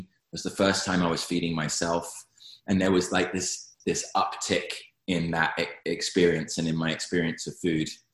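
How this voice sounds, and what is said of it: British accent. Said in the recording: “From this accent you get, I'm not from here. So I moved from the UK”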